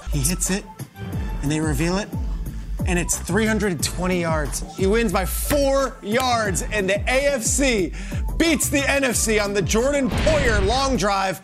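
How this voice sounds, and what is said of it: Breathless, out of breath. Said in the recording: “out of breath”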